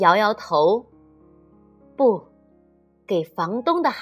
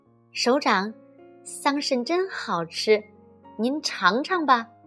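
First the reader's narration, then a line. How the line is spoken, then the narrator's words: Guard, quiet lip-smacking. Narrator (Chinese): 警卫员咂咂嘴，小声说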